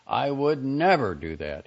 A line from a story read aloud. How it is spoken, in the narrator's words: he kept shouting